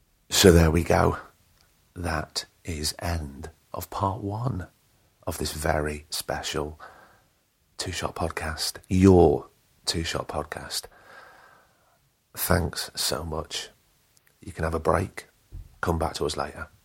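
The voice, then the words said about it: Slightly croaky voice. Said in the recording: “my voice is getting a little bit croaky”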